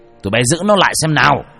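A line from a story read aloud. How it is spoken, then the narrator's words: Shouted. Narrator (Vietnamese): Ông thét mấy người lính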